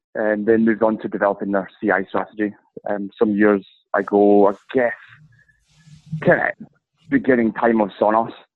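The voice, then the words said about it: Scottish accent. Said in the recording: “you can tell from the accent, I'm based in Scotland”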